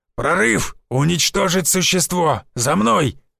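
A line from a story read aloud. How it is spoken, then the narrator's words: Barked gruffly. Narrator (Russian): рявкнул бородатый мужик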